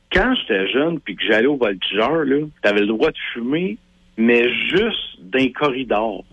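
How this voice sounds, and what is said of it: Quebec regional French accent. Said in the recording (French): “je viens de Drummondville ... Clairement, hein? C'est l'accent.”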